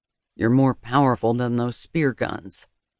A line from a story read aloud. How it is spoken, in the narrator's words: he murmured, his voice low and still full of pride